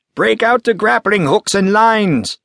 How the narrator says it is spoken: shouted

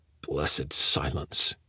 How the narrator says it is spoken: he muttered to himself

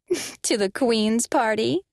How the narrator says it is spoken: laughed mockingly

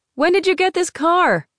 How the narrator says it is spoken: Teresa shouted over the wind and motor

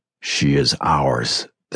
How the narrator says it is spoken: the dark voice of the other twin growled

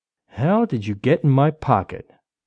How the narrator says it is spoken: Derek said softly to himself

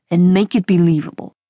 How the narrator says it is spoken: growled

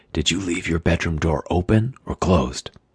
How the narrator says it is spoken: said over my shoulder, keeping my voice down

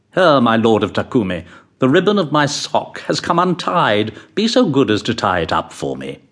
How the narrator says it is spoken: he said haughtily

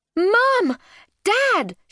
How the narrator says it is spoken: she yelled

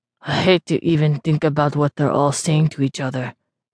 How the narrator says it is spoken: Gaier mumbled

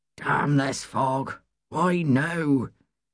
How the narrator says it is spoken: muttered to himself, irritably

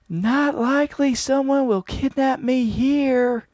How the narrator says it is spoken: finally managed to bellow back

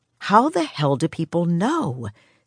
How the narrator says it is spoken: Sarah whispered after the latest one walked away, smiling to herself

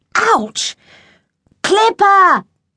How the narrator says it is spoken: yelled back

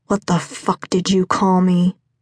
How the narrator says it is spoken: Levi growled

